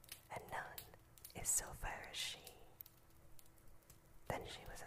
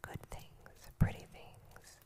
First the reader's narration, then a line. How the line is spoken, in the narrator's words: said the queen